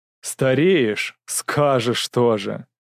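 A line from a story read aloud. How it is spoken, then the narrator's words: Drawl. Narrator (Russian): протянул Кричко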